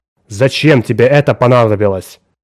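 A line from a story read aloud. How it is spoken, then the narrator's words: Sharp interruption. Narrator (Russian): резко прервал ее Янош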